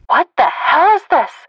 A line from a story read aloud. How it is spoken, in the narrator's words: I yelled